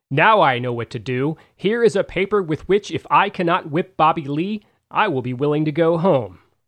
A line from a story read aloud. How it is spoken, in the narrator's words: Mack exclaimed